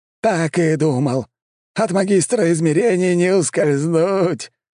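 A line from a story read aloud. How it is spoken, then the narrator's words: Laughing loudly. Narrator (Russian): Валамарт хохотал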